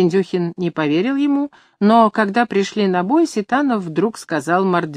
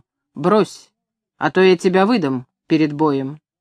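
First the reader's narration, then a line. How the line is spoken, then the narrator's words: Stern warning. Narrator (Russian): Ситанов строго предупредил его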